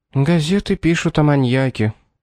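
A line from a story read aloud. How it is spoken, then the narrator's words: Sad. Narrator (Russian): грустно сказала Шарлотта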